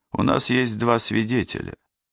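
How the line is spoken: Indifferent tone. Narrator (Russian): произнес я безразличным тоном

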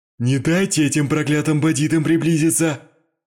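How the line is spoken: Man yelling. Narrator (Russian): орал круглолицый человек

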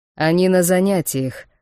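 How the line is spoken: Skeptical snort. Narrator (Russian): хмыкнул Вархар

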